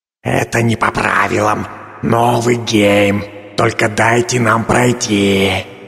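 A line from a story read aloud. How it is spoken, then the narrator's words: Hissed in spell-language. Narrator (Russian): прошипел ректор на языке заклинаний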